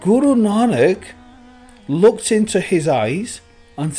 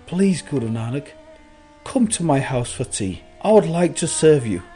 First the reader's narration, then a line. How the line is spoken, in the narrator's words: Bhumi Daku begged Guru Nanak